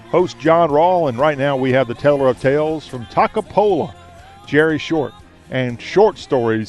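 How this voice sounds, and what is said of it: Southern American accent. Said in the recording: “This is the show where we talk with a Southern accent.”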